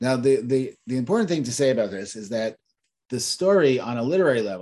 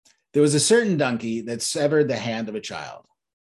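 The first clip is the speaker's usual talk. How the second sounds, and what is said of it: Storytelling voice. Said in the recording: “put on my storytelling voice.”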